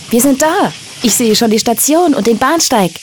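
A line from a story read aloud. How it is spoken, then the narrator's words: Shouting. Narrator (German): Klaus rief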